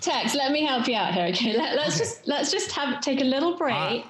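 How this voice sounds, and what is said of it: English London accent. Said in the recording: “I love her English accent saying Tex... London... West London, Chelsea.”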